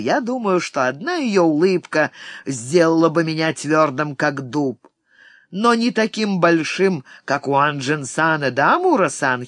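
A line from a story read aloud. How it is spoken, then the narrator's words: Giggling. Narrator (Russian): хихикнул Уо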